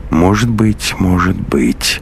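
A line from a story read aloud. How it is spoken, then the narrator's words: Gloomy mutter. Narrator (Russian): уныло пробормотал калмык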